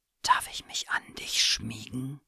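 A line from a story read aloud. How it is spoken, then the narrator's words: Whispered. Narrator (German): flüsterte der Bär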